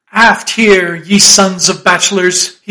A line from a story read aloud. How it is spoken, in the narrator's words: he cried